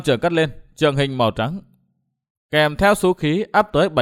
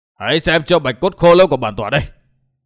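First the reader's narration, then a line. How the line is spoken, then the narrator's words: Barking shout. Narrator (Vietnamese): Đầu Lâu Bảo chủ quát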